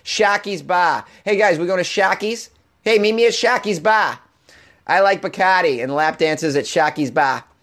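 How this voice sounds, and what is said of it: Put-on Boston accent. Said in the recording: “pronounced in uh, with a Boston accent, hilarious”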